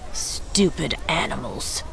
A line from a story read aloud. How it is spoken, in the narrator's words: muttered